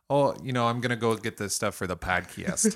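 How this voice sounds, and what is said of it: Toledo accent. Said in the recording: “my Toledo accent came out.”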